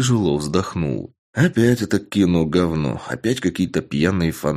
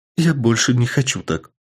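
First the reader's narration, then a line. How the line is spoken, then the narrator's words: Sobbing young woman. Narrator (Russian): всхлипнула девушка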